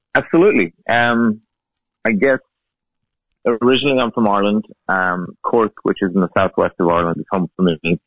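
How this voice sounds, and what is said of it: Non-American accent. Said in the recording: “the accent maybe isn't your traditional stateside accent.”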